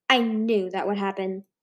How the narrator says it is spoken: he said

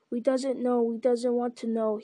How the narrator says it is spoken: he whimpered

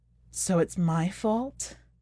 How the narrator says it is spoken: wilted as she wept and sighed

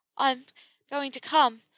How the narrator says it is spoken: panted

